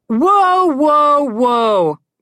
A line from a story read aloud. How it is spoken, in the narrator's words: Connor yelled from the back